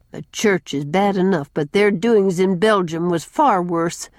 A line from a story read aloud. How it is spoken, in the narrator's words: said Susan grimly